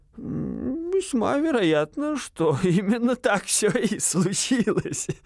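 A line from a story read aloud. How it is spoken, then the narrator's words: Old man laughing. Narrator (Russian): засмеялся старый доктор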